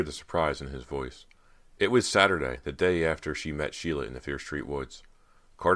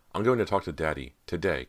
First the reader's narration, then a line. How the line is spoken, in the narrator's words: Carter said